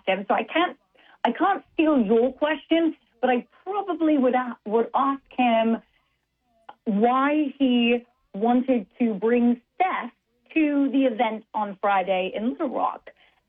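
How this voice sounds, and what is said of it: Put-on British accent. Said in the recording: “this is quite hard in my British accent ... think in my British accent”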